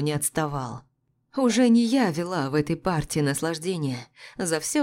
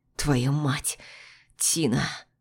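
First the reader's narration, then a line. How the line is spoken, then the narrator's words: Hoarse rasp. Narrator (Russian): Почти прохрипел Макс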